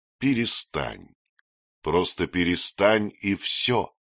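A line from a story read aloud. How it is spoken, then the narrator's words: Calm repetition. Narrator (Russian): повторил голос все так же спокойно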